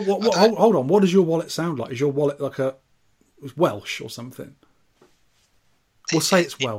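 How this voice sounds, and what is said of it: Usual voice. Nothing is said of it.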